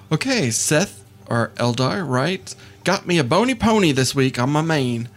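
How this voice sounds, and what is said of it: Texan accent. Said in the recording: “Why are you talking like you're from Texas? ... I am from Texas.”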